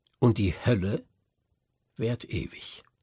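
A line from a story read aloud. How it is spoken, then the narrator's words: Slow. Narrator (German): sagte ich langsam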